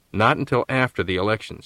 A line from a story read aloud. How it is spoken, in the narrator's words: said Fletcher firmly